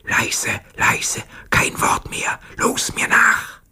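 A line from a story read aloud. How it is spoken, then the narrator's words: Whispering. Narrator (German): flüsterte seinen Kameraden zu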